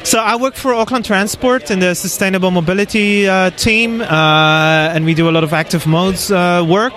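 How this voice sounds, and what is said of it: Dutch accent in English. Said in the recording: “you've got a bit of an accent, so where are you from originally? ... I'm from the Netherlands.”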